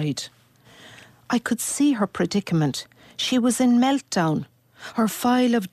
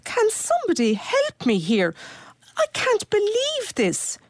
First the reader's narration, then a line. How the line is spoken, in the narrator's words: shrieked